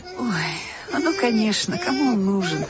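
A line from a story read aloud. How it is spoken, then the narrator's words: Sighing kind woman. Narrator (Russian): Вздохнула женщина с добрым лицом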